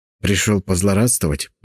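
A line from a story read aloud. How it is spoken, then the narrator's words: Hissed, male. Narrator (Russian): прошипел он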